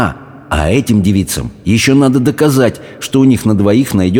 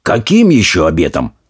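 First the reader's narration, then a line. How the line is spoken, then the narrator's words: Angry group question. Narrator (Russian): сердито спросили все прочие, в том числе и толстые невесты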